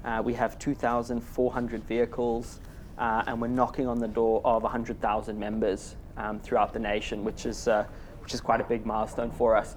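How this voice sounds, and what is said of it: Zimbabwean accent. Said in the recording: “if you think I've got a funny accent, it's because I do. I'm from Zimbabwe in Southern Africa.”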